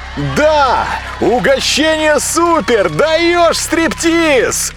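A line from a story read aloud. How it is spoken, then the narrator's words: Crowd shouting. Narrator (Russian): кричали из зала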